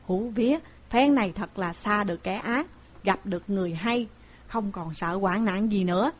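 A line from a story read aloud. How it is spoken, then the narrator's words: Muttered. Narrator (Vietnamese): Tống Giang lẩm bẩm bảo hai người kia rằng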